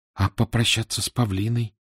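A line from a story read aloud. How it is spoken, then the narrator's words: Quiet question. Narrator (Russian): тихо спросил Митя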